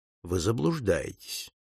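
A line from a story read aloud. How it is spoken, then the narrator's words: Cold objection. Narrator (Russian): холодно возразил Пинкертон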